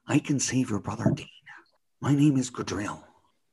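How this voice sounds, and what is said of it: Imitates a TV character's voice. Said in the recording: “Gadriel's another impersonation I can do pretty well ... Gadriel when is in his original suit”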